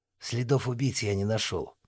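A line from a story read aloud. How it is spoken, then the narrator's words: Quiet report. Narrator (Russian): негромко доложил Васильков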